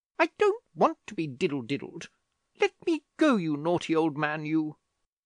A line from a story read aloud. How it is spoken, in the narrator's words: said Julia crossly